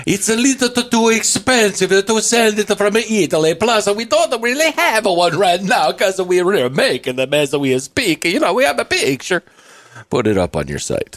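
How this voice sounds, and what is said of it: Put-on Italian accent drifting Swedish. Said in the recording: “That was my Italian accent. It kind of went into Swedish there.”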